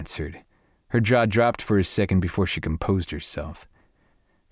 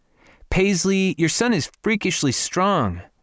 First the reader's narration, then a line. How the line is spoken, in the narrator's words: Morgan called out